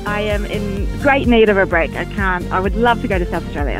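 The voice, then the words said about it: Slight Australian accent. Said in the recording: “I'm picking up a wee accent there. Are you possibly Australian?... I am Australian.”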